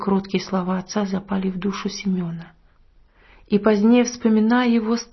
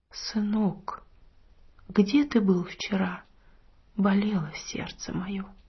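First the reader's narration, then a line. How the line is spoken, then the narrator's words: Quiet. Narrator (Russian): тот тихо сказал ему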